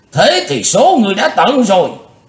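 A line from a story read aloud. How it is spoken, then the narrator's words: Furious thunderous roar. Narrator (Vietnamese): Nam tà không còn kiềm hãm được cơn tức giận của mình nữa, giống tợ như trời gầm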